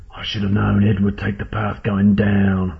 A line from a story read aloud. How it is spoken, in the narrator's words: growled the eye-patched possum